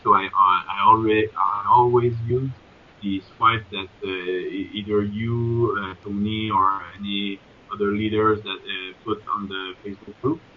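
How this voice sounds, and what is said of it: Non-native English accent. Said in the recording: “as you see with my accent, I'm not English speaking”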